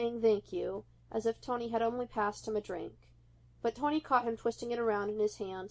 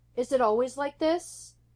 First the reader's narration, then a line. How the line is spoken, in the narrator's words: Steve yelled over the rush of the wind